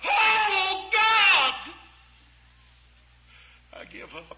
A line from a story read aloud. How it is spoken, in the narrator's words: I still was as dry as a bird nest, and I'd fasted 40 days, and I cried out at 3:30 in the morning